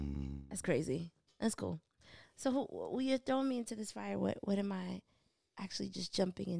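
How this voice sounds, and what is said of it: Usual voice. Nothing is said of it.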